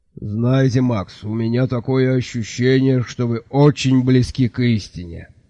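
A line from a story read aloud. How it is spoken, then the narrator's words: Good-natured grumble. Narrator (Russian): добродушно проворчал трактирщик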